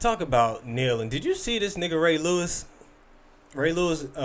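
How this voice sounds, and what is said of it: Usual voice. Nothing is said of it.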